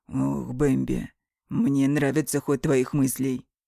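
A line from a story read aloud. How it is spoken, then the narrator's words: Hoarse. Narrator (Russian): произносит он хрипло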